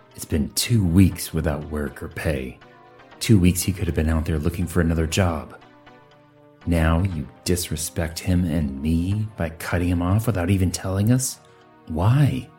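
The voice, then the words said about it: Booming, loud male voice. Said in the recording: “he said in a booming voice”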